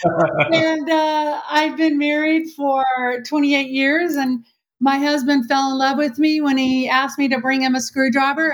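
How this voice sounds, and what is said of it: Texan accent. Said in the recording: “Born and raised Texan, which you probably see, you know, can hear by my accent.”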